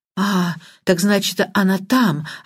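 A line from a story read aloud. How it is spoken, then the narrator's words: Relieved sigh. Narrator (Russian): облегченно вздохнула Банч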